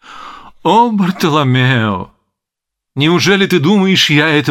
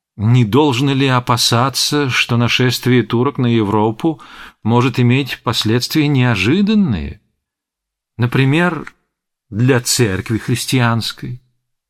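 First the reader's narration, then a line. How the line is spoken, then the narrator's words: Ingratiating, insinuating. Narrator (Russian): вкрадчиво молвил секретарь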